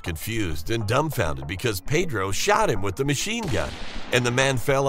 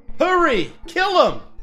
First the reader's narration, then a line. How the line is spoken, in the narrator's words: The woman's husband shouted to us